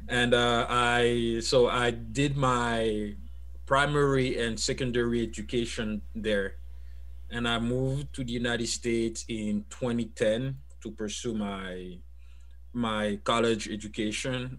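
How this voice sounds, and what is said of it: French-speaking accent. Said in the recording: “I'm a French speaker, as you could tell by my accent.”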